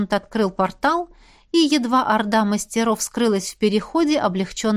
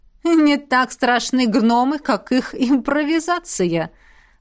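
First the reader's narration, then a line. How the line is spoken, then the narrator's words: Laughing. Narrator (Russian): рассмеялся полковник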